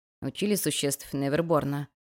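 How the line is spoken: Whispered question. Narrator (Russian): шепотом спросил Ришен

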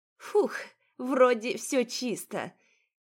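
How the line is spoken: Nervous giggle. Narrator (Russian): Нервно хихикнув, констатировала она

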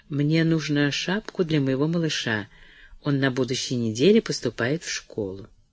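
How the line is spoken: Confidential tone. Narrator (Russian): она сказала конфиденциальным тоном

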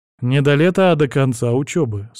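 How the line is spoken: Plain. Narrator (Russian): сказал я

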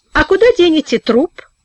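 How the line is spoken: Almost cheerful question. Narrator (Russian): спросил Денис почти весело

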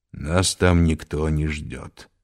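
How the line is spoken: Gloomy. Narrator (Russian): мрачно сказал Арно

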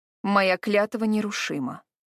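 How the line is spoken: Icy reply. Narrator (Russian): ледяным тоном отозвалась она

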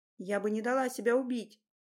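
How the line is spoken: Hoarse whisper, throat constricted. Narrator (Russian): хрипло прошептала я, уже чувствуя неприятное давление на горло

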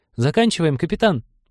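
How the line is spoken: Squeaky voice. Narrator (Russian): пискнул ком

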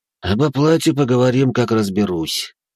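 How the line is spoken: Sighing. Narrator (Russian): вздохнул он

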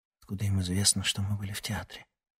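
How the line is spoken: Whispered question. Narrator (Russian): шепотом спросила Ксения

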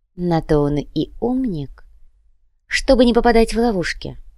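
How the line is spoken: Calm young woman. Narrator (Russian): спокойно ответила девушка

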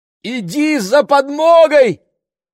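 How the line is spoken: Shout at full strength. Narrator (Russian): крикнула она, что было мочи

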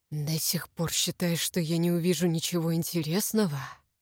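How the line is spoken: Hoarse. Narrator (Russian): Кириан произнес хрипло

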